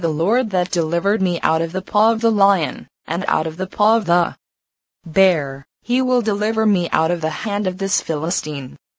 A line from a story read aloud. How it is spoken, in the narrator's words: David stood firm in his faith, said calmly